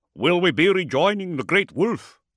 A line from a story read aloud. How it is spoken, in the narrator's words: Hakon asked